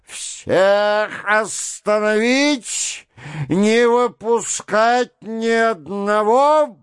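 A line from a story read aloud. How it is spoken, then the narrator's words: Menacing yelling. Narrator (Russian): вопил Лембке, грозно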